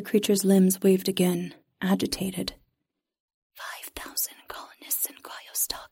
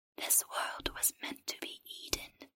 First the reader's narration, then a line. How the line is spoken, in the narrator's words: the creature whispered